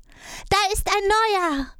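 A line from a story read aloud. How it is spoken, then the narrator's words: Small child's call. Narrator (German): das Kleinste rief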